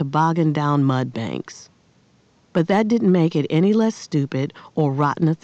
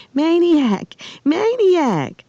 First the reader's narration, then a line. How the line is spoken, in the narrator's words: two familiar voices squealing